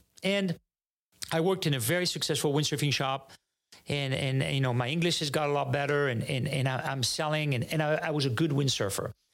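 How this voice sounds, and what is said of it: French accent. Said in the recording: “I'm French and I've got an accent”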